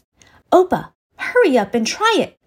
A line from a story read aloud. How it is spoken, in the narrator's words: Imunchi said excitedly